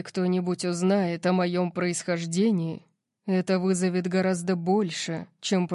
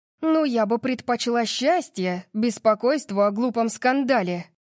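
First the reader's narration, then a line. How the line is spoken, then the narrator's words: Snapping. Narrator (Russian): огрызнулась я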